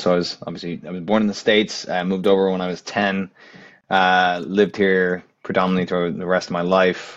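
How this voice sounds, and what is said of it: American accent. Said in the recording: “I have an American accent.”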